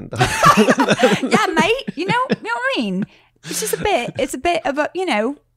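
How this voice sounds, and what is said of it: Put-on British accent. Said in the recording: “had a British accent.”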